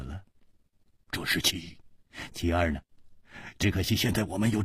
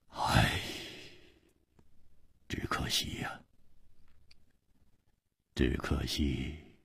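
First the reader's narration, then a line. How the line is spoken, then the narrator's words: Sudden sigh. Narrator (Chinese): 他忽然叹了一口气说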